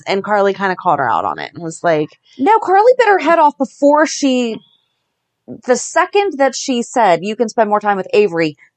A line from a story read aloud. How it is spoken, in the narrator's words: Carly snapped